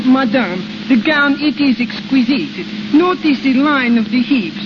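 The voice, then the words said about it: Put-on French accent. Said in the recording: “you can put on a little French accent ... practice up on your accent.”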